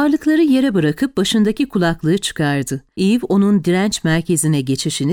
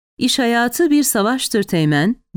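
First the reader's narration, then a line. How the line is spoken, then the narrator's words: Plain. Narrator (Turkish): dedi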